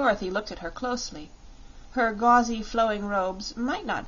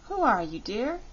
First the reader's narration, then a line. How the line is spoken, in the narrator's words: she asked gently